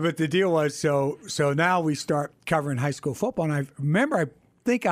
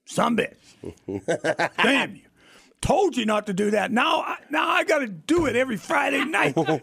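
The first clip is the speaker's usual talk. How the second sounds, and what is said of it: Poor imitation of another person, yelling. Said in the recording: “He's yelling at me and stuff. That's a terrible Jack impression”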